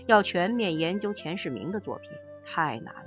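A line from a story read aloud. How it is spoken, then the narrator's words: Sighing lament. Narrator (Chinese): 著名学者吴小玲先生生前曾慨叹说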